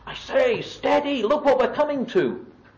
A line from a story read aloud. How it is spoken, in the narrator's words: Eustace presently shout